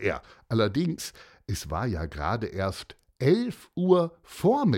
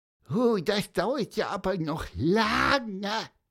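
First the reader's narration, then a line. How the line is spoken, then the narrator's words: Squeaky voice. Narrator (German): piepste Pieper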